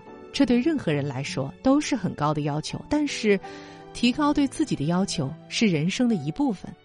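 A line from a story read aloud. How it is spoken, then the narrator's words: Smiling, wise. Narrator (Chinese): 智者笑着说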